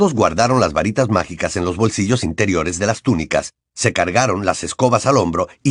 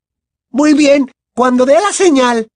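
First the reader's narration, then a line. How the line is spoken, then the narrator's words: Shouted. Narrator (Spanish): gritó Angelina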